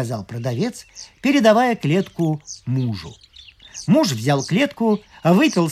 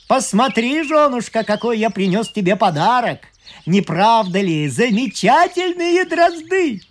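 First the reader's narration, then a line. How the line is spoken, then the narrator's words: Shouted from doorway. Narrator (Russian): крикнул с порога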